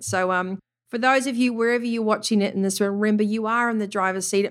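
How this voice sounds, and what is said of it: Speaker's own noticeable accent. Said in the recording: “my funny accent”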